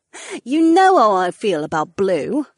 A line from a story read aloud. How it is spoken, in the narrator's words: the blonde laughed